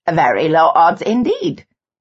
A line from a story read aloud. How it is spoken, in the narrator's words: June said brightly